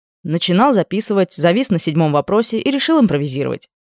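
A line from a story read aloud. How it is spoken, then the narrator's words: Wry grunt. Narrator (Russian): хмыкнул он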